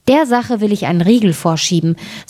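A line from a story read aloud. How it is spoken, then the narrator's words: Plain. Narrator (German): sagte das Schneiderlein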